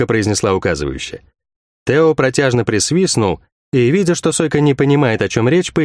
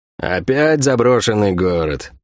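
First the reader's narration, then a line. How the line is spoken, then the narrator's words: Grumbled. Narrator (Russian): проворчал Сойка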